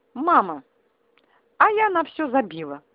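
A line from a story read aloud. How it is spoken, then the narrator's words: Joyful announcement. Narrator (Russian): радостно сообщила раскрасневшаяся Степанова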